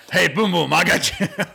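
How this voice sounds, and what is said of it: Imitates another person's voice. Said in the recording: “I like hearing your impression of him. You can do a good one. ... Oh, the Coach O.”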